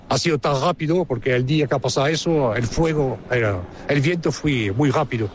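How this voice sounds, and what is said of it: French speaker with Almerian Spanish accent. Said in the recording (Spanish): “francés con acento almeriense”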